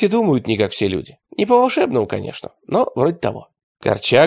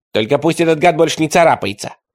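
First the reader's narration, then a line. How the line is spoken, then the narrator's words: Grumbled. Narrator (Russian): проворчал Ничевок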